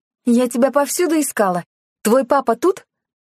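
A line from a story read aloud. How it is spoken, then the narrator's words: Shout. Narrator (Russian): Клара с порога крикнула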